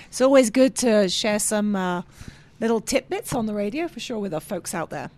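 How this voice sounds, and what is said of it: English accent, slightly raspy voice. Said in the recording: “the English accent is ... I'm just getting over a cold, so I might be a bit raspy”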